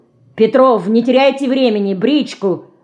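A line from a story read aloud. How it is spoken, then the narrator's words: Irritated shout. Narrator (Russian): раздраженно крикнул Шпик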